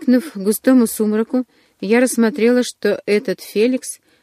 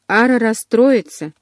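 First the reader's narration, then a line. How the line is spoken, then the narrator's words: Sighing. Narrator (Russian): вздохнул Деметрий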